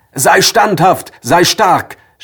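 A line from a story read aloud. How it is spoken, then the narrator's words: Shouting. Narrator (German): schrie Kalle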